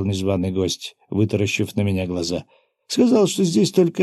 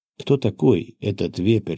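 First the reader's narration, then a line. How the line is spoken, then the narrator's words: Plain. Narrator (Russian): спросил я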